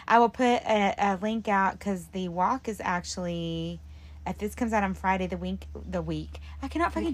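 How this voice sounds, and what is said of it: Strained, fading voice. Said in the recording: “my voice is going now. I can tell.”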